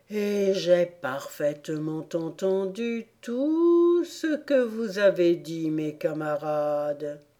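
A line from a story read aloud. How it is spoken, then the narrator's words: Vague, strange voice. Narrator (French): déclara-t-il d'une voix vague et bizarre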